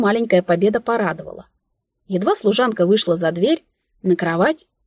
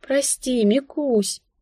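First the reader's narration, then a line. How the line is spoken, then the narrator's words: Sighing. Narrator (Russian): вздохнула я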